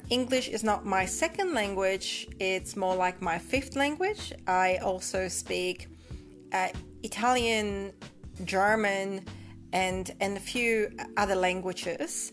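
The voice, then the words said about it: Mixed Polish-Australian accent. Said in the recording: “your lovely accent ... my accent, even though it has evolved over the years, it is still quite unique in that it's not quite Polish and it's not quite Australian”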